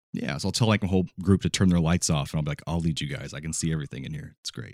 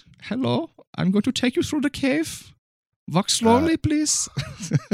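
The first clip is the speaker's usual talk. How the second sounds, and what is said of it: Put-on German accent. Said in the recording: “With a German accent.”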